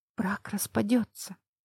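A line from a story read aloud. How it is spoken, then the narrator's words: Mouthed whisper. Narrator (Russian): прошептала я одними губами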